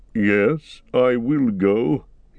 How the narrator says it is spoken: he answered slowly

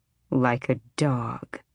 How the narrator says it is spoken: she murmured

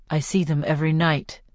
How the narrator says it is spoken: says

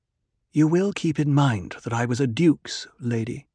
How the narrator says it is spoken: she said, but her voice was calmer

